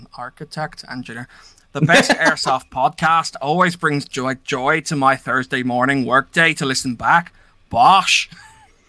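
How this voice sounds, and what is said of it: Put-on Northern Irish accent. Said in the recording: “attempt to butcher the Northern Irish accent ... That was actually quite impressive.”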